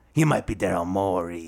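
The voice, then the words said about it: Put-on New York accent. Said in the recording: “What is this accent? ... New York? ... you do like this New York guy ... the guy who has a cigar in his mouth at the pizza parlor ... That accent is funny”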